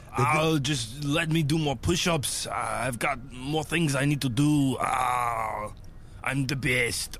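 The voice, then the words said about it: Arnold Schwarzenegger impression. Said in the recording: “you don't have to impersonate Arnold, but that was pretty spot on.”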